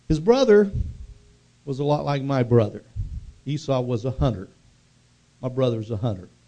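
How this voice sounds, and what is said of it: Oklahoma accent. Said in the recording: “I talk with an Oklahoma accent”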